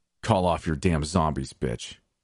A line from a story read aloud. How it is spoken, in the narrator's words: Jason growled to me